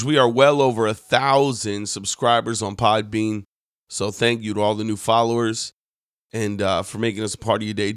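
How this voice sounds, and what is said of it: Slightly hoarse, worn voice. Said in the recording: “Been preaching a lot. That's why my voice is a little shot.”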